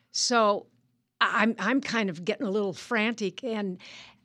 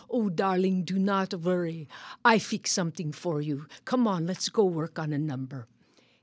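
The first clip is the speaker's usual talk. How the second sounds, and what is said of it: French accent imitating Robert Clary. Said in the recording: “this French accent ... It was Robert Clary”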